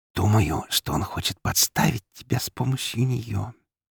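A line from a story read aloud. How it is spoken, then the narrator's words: Quiet intimate whisper. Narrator (Russian): уже куда более тихо, почти интимно прошептала она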